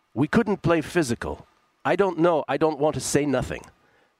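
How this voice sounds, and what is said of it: Imitates another person's accent. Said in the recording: “That's my Luka accent”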